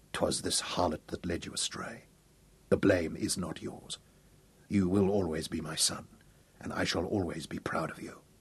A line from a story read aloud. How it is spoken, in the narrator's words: whispered